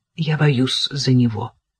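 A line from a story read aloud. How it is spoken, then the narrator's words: Quiet answer. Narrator (Russian): тихо ответила Кира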